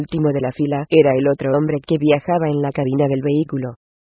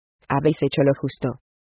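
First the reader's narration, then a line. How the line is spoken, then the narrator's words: Plain. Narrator (Spanish): le dijo Guión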